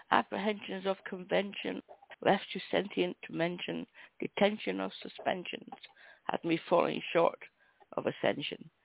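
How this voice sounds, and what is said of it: Hoarse, croaky voice. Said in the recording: “I'm losing my voice. I do apologize for the croaks.”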